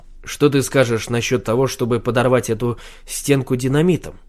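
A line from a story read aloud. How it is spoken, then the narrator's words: Plain. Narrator (Russian): спросил он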